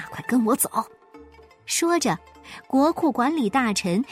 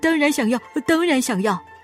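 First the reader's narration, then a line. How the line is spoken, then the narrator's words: Hurried speech. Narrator (Chinese): 两个流浪汉急忙说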